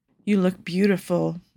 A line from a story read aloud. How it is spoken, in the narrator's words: Majid murmurs, captivated by Paolo's stunning eyes, creamy skin, alluring smile